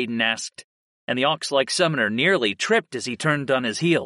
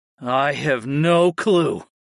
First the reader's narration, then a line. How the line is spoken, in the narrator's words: I groaned